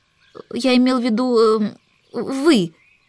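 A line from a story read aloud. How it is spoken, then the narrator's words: Stammering. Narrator (Russian): начал он, запинаясь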